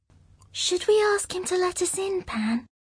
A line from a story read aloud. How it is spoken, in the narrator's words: she whispered